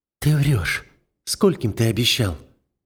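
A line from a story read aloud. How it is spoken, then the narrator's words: Quiet. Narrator (Russian): тихо произносит Рика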